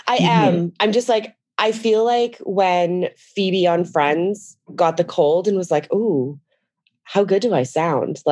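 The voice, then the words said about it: Husky, worn-out voice. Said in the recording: “apologize for my voice. It's been a week of talking ... The dark, like seductive voice”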